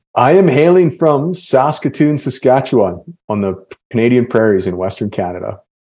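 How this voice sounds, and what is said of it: Canadian accent. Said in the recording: “you were Canadian... Your accent... The A. That's always a dead giveaway.”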